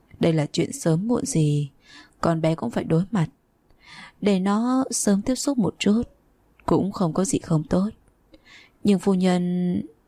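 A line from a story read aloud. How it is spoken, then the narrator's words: Smiling, old woman. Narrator (Vietnamese): Doãn lão phu nhân cười cười nói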